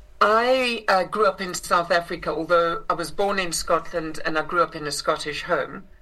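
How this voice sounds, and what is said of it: South African accent. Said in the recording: “I grew up in South Africa, which is where I inherited this accent”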